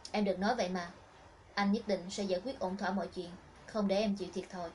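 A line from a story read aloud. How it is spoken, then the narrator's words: Gentle, comforting. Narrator (Vietnamese): Thịnh Khải Luân dịu dàng an ủi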